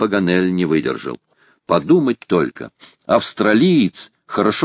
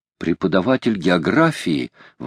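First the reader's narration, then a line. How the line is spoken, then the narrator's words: Exclaiming. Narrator (Russian): воскликнул Толлини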